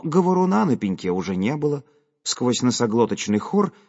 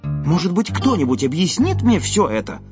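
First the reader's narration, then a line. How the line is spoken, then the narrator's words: Loud question. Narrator (Russian): громко спросил я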